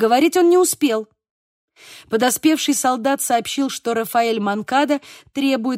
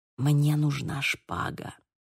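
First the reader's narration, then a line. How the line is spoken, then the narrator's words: Whisper. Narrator (Russian): прошептал Диего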